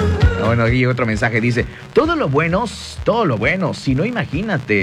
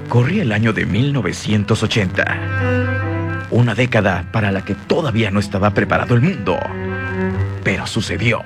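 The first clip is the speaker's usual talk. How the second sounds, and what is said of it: Dramatic narrator voice. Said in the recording (Spanish): “voz de narrador ... así de narrador también”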